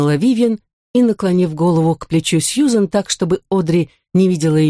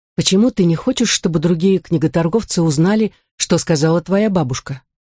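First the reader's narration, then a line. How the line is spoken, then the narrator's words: Whispered. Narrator (Russian): Сьюзен прошептала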